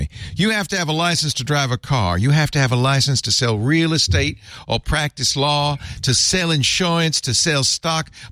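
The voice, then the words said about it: Bad put-on Southern accent. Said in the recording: “I'm going to give him a bad Southern accent. Forgive me.”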